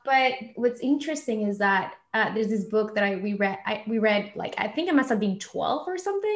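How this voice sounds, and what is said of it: Slight Argentine accent. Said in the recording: “I love your accent ... if you hear a little bit of an accent, it's because I'm from Argentina”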